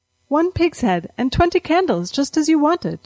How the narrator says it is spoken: said brightly

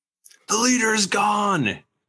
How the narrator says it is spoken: somebody yells

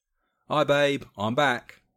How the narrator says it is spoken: called out from the door

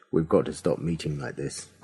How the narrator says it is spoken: I said

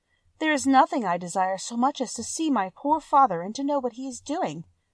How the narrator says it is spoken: said she with a sigh

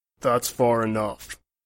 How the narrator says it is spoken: a voice rumbled through the dense foliage

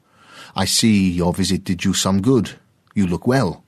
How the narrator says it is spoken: called out

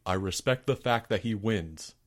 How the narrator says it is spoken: said Albert

